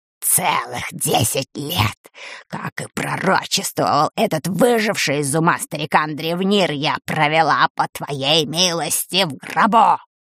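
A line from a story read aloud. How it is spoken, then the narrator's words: Hissing. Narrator (Russian): прошипела она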